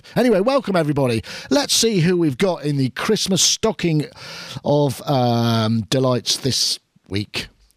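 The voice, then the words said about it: Congested head-cold voice, lower pitch. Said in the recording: “I've got a really heavy head cold, so that's why I sound like maybe my voice has dropped an octave”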